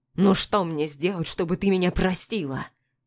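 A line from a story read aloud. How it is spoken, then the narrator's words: Desperate growl. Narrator (Russian): Рычит, но не зло, а как-то отчаянно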